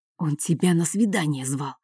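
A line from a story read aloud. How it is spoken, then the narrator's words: Whisper. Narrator (Russian): шепотом сказал Марк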